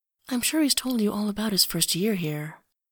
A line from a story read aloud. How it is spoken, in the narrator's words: she says softly